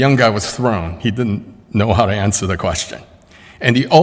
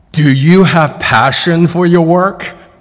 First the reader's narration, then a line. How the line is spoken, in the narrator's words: the old guy from across the table yelled